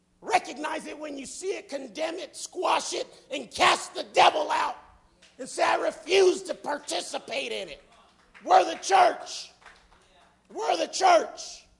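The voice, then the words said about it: Yelling in a strained, hoarse voice. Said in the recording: “I'm yelling. I'm already losing my voice.”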